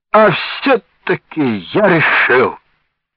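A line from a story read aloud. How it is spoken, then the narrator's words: Panting, relieved exclamation. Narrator (Russian): сказал он, отдуваясь, и тут же облегченно воскликнул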